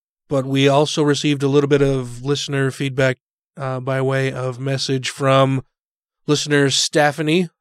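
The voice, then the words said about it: Hoarse, congested, fading voice. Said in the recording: “my voice is about gone ... When I'm a little bit congested. ... Sorry, my voice is just about gone.”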